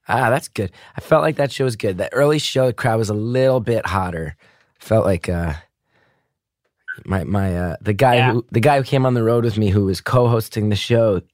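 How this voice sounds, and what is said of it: Slightly hoarse, strained voice. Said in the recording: “losing my voice a little bit”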